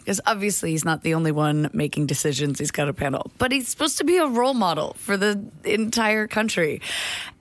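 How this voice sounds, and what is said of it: American accent. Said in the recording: “my accent ... as an American”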